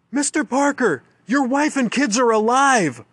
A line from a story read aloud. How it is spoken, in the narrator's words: female ranger shouts